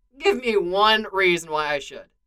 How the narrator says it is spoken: Clint says

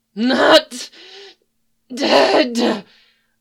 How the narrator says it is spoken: the wraith howled

